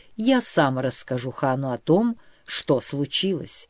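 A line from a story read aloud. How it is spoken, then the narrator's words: Calm, patient repetition. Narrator (Russian): спокойно и терпеливо повторил князь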